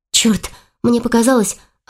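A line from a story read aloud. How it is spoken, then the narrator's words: Relieved exhale. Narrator (Russian): облегченно выдохнула Саша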